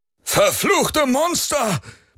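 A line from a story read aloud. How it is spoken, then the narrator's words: Sailor roaring. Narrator (German): brüllte ein Matrose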